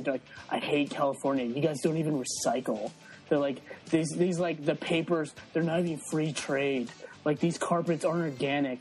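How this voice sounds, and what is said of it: Put-on California accent. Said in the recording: “I'm doing a California accent”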